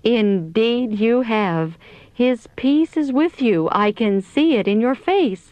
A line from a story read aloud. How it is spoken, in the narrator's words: she exclaimed